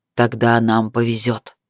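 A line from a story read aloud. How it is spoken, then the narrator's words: Breathless, barely restrained growl. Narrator (Russian): Тяжело дыша, Сияр, понимая, что еще немного и сорвется, рычащим голосом выдал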